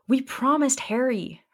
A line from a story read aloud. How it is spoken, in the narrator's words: Hermione cried, holding the weight of the shield